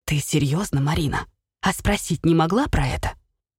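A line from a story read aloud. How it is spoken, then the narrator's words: Father whispering. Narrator (Russian): Шепотом говорил отец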